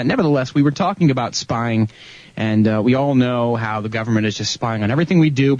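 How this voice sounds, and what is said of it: Slightly nasal, congested voice. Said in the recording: “I sound a little nasally tonight... I'm just getting over a little bit of a head cold”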